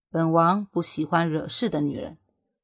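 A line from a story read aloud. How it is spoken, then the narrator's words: Cold, flat. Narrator (Chinese): 冷冷的开口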